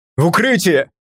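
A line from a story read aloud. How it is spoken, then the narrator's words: Shout. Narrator (Russian): крикнул я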